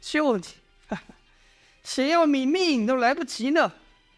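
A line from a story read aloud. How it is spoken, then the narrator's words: Sly laugh. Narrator (Chinese): 阮树的贼笑道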